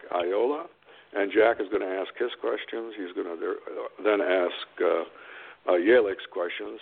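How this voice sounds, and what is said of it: Congested voice from a cold. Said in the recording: “I've got a little cold, so I'm a little under the weather”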